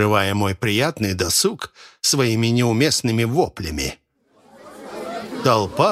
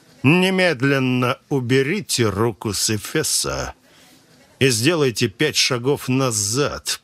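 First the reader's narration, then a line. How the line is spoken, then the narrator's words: Through gritted teeth. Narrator (Russian): процедил он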